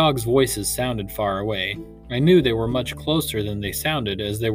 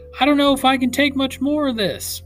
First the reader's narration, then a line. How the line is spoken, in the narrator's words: Papa shouted above the wind